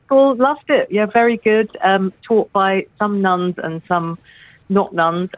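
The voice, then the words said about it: English accent. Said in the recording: “a fantastic English accent ... We all love your accent”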